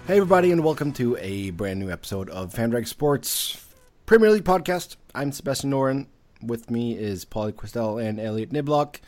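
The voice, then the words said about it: Slightly sore, rough voice. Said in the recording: “I have a little bit of a sore throat”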